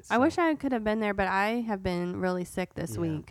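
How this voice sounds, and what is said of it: Hoarse, congested sick voice. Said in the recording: “if you can hear it in my voice ... I just had a really bad cold and like sore throat and everything”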